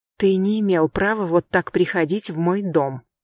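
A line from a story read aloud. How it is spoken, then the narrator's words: Angry whisper. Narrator (Russian): сердито шепчу я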